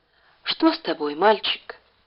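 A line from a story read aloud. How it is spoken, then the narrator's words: Quiet question. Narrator (Russian): тихо, чтобы не услышала Ляля, спросила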